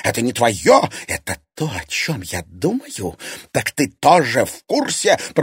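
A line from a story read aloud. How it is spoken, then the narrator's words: Hissing. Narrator (Russian): прошипела Зверева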